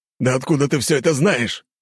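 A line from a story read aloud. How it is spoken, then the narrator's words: Growl. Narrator (Russian): рыкнул Коганов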